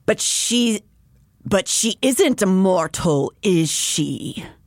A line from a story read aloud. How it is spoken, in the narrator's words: Nolan sneered